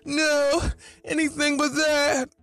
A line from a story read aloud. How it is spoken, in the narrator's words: he yells